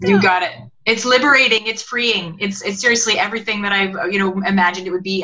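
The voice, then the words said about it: Canadian English accent. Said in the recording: “I've really enjoyed listening to your accent because it's been a long time since I've been around Canadians.”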